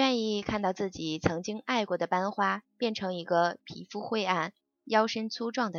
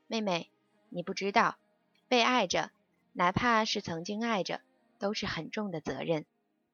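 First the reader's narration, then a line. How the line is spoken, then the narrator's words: Sighing smile. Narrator (Chinese): 他叹息似的对我一笑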